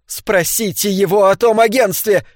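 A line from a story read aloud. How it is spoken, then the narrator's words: Screaming. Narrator (Russian): кричала она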